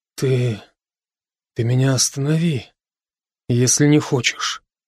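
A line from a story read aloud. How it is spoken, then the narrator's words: Sharp sigh, indistinct whisper. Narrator (Russian): Брок порывисто вздохнул и прошептал невнятно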